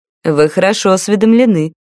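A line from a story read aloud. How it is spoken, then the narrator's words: Mocking praise. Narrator (Russian): насмешливо похвалил Иржин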